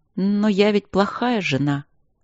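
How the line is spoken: Sad. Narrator (Russian): сказала она грустно

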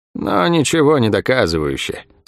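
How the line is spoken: Bored objecting voice. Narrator (Russian): скучным голосом возразила Лавиани

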